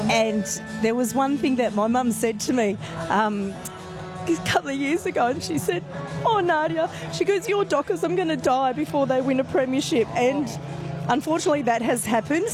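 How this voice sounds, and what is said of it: Emotional, tearful voice. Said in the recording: “getting emotional ... I'm crying on the radio”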